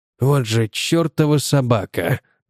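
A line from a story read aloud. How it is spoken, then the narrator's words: Muttered curse. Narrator (Russian): пробормотал он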